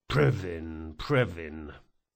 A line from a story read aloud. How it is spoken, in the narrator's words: muttered one of the guards